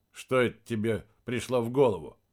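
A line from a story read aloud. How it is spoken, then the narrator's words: Snorting hmph. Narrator (Russian): хмыкнул он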